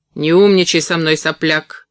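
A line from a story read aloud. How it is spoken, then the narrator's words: Barking. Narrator (Russian): рявкнул он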